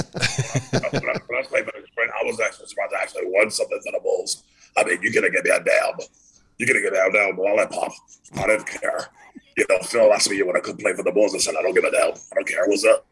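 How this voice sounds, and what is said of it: Imitates another person's voice. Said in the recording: “do Dennis Rodman now right after he got headbutted by Stacy”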